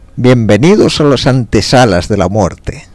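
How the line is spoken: Shouting. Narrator (Spanish): les gritó

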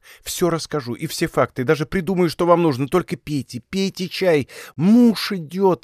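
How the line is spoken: Pleading. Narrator (Russian): взмолилась она

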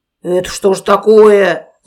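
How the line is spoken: Growling bear. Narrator (Russian): зарычал медведь

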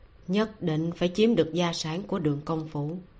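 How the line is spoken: Sighing. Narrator (Vietnamese): người đằng sau bình phong, thở dài

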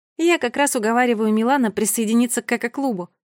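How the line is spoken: Laughing explanation. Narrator (Russian): смеясь объяснила Мерле

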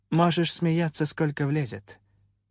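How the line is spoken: Calm but gloomy. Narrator (Russian): на удивление спокойно, хоть и мрачно отреагировала Инамира

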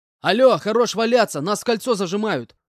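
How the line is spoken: Shouting. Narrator (Russian): прокричал я

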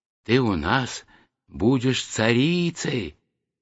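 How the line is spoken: Whispering flowers. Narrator (Russian): шептали ей цветы

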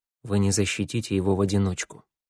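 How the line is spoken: Quiet, after a pause. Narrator (Russian): Второй помолчал, потом тихо проговорил

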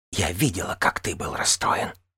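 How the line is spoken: Whisper. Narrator (Russian): прошептала Ненавис

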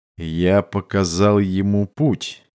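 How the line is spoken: Serious correction. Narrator (Russian): серьезным тоном поправил Кутизи

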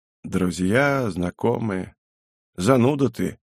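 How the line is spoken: Muttering. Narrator (Russian): бормотание

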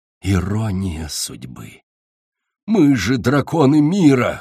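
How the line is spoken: Wheezing in pain. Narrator (Russian): хрипел он, корчась от боли

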